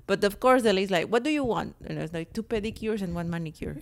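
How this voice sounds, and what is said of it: Mexican accent. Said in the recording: “can you please try to do that without any like uh, accent? ... what accent? It's my Mexican accent.”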